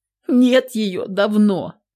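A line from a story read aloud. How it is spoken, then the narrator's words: Starting to sob. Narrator (Russian): Дина начинает всхлипывать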